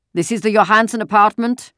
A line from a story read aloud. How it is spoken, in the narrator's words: a deep voice asked the question loudly in the terribly accented Danish